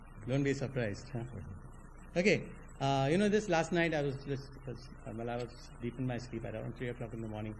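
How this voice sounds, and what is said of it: Speaks English with an accent. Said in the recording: “I hope you'll understand my accent.”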